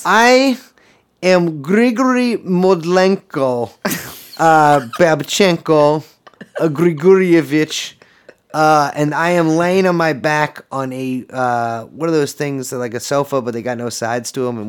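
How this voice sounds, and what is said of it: Put-on foreign accent. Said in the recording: “I stopped doing the accent, I got tired.”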